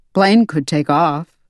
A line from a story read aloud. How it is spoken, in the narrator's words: he grunted